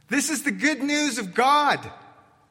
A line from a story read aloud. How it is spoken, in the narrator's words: he shouts and proclaims along the shoreline